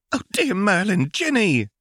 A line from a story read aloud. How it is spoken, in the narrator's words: squeaked Molly